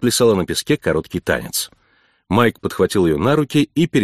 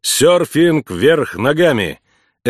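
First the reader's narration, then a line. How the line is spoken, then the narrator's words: Laughing loudly. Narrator (Russian): Эмма хохотала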